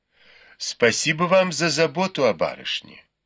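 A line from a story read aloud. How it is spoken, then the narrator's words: Plain. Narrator (Russian): ответила Цзэцзюань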